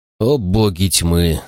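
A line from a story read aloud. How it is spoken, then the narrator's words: Sighing. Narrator (Russian): вздохнул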